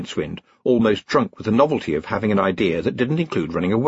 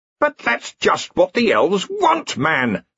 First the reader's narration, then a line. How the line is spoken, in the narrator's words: snapped Ridcully